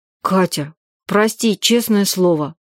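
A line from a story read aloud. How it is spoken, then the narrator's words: Muttered. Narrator (Russian): пробормотал он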